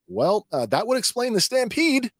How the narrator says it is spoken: Tech blurts out

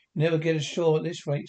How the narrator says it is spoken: said

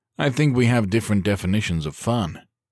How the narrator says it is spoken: he said dryly

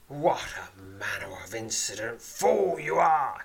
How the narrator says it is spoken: he snarls

